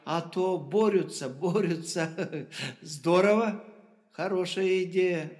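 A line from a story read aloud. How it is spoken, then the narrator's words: Laughing. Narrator (Russian): рассмеялась Жебровец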